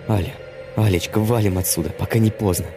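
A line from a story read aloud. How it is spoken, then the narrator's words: Whispered. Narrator (Russian): Я зашептал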